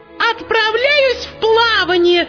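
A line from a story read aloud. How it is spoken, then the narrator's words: Shout, darning needle. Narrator (Russian): закричала штопальная игла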